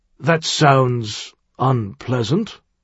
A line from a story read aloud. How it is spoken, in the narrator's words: Thirsk observed in a carefully neutral tone